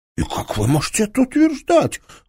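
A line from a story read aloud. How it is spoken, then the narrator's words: Exclaim. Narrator (Russian): воскликнул Моисеенко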